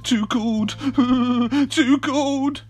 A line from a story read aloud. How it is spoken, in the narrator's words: they cried